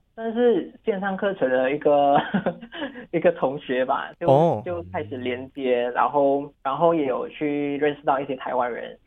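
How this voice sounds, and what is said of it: Slight Taiwanese Mandarin accent. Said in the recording (Chinese): “你自己本身都会有一点点台湾的口音”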